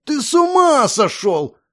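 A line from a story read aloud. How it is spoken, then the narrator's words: Roared like wounded boar. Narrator (Russian): раненым кабаном взревел друг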